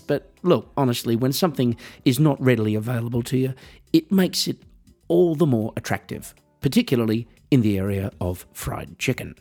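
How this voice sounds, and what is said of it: Australian accent. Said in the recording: “I'm Australian, as you might be able to tell from the accent.”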